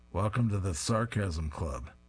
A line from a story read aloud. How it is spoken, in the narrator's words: He dryly announces